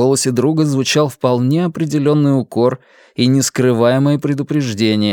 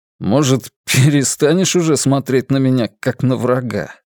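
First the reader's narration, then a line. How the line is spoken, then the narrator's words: Wry snort. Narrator (Russian): хмыкнул Вивьен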